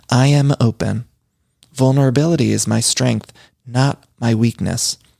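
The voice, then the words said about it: Public-radio announcer voice. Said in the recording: “I'm getting my NPR voice now.”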